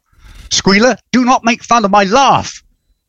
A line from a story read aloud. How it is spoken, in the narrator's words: Napoleon, who snaps at Kieran Culkin's boar